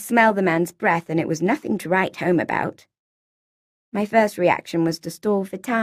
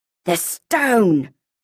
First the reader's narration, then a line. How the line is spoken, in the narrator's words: a voice rasped, hot in my ear